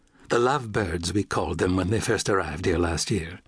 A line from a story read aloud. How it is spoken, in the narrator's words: Beatrice Prine said